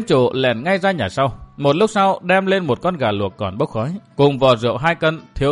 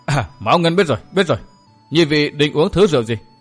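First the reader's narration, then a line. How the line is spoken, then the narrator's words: Bursting into laughter. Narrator (Vietnamese): Gã đếm chủ bật cười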